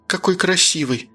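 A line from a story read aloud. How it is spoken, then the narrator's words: Reverent breathless whisper. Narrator (Russian): выдохнула она, благоговейно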